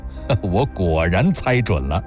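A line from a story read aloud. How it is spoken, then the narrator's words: Laughing. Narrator (Chinese): 林楠笑道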